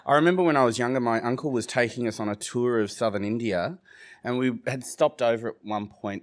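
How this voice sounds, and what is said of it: Australian accent. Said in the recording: “my Australian accent.”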